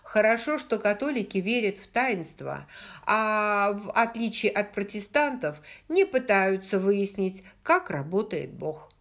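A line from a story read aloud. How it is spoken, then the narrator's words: Laughing speech. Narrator (Russian): она рассмеялась и сказала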